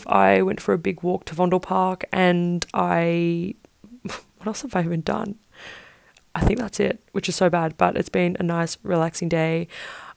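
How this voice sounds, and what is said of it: Rough, tired-sounding voice. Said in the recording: “my voice is so messed up, and I'm just like exhausted”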